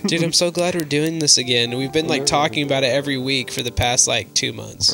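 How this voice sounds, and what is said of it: Hoarse, raspy voice. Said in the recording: “My voice sounds so, like... Like, it sounds like I smoked, like, three, like, whole packs of cigarettes.”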